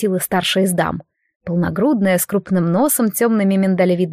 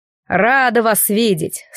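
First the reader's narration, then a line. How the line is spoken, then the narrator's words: Loud menacing bass. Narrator (Russian): снова угрожающе громко пробасила дама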